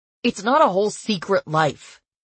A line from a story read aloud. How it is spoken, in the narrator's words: he snapped, imitating my tone